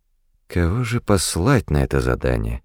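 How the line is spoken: Thoughtful. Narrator (Russian): задумчиво произнес Рэндом

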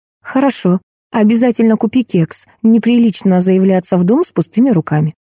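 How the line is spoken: Calm reply. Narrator (Russian): Марина спокойно отвечала

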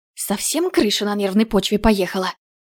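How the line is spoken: Hissing. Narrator (Russian): зашипела я на Грейстока

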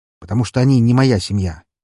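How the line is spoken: Sharp. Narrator (Russian): резко ответил я

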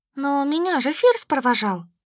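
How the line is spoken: Uncertain mumble. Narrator (Russian): неуверенно пробормотала блондинка, которой, похоже, не очень-то хотелось, чтобы вышеперечисленные норды нашли ее так быстро

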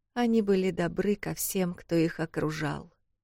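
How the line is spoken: Quieter, less melodic. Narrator (Russian): начал вновь он, более тихим голосом и уже не таким мелодичным

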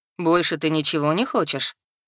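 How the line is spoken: Man's snort. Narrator (Russian): хмыкнул мужчина

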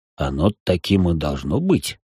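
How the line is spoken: Muttering. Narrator (Russian): пробормотал маг

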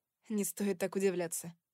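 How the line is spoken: Laughing. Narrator (Russian): рассмеялась я

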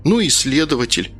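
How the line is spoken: Girl's sigh. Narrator (Russian): девушка вздохнула

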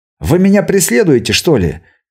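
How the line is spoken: Angry question. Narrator (Russian): сердито спросил я

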